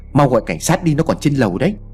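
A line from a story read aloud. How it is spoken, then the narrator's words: Shouting. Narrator (Vietnamese): có người la lên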